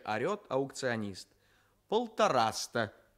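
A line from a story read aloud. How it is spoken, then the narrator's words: Plain. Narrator (Russian): говорит ваш сосед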